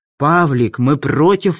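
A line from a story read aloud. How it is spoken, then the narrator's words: Exclaimed. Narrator (Russian): воскликнул Мартин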